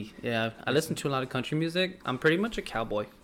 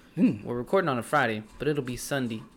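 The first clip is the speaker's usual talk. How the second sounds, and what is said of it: Put-on country accent. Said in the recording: “That's my country accent”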